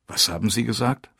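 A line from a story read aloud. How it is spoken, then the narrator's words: Plain. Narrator (German): fragte ich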